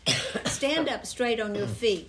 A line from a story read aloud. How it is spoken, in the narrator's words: Paul said in a loud voice